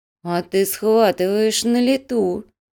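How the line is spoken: Slow drawl, young woman. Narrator (Russian): медленно протянула девушка

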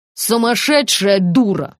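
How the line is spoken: Snapping retort. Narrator (Russian): огрызнулась Люба

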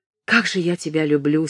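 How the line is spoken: Through gritted teeth. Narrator (Russian): сказал сквозь зубы

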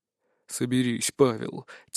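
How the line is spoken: Quiet. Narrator (Russian): тихо произнес

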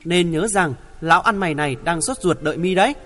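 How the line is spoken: Smiling reminder. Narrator (Vietnamese): Nam Cái mỉm cười nhắc lại

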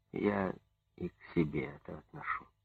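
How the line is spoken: Soft-spoken. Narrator (Russian): мягко сказал секретарь обкома

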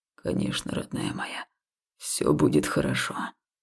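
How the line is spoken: Hoarse whisper. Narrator (Russian): хрипло прошептал Хаул

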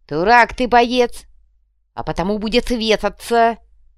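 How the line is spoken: Stern reply. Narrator (Russian): строго ответил

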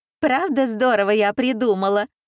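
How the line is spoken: Laughing loudly. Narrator (Russian): расхохоталась девица

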